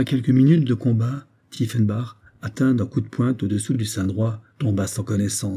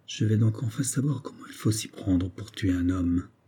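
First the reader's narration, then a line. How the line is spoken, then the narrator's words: Quietly to himself. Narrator (French): Il se dit tout bas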